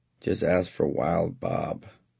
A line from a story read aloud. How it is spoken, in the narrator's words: I said to him lazily